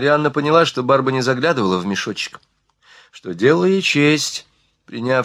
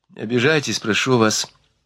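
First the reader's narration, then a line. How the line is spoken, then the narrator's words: Tender. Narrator (Russian): ласково сказала ей Марианна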